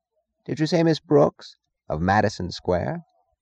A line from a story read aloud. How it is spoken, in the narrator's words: when he answered, making his voice sound peculiarly clear